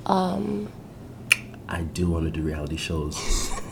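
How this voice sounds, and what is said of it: Whispering. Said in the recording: “I don't know why I'm whispering right now”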